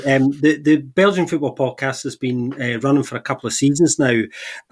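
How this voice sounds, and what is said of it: Scottish accent. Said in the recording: “a Scottish man”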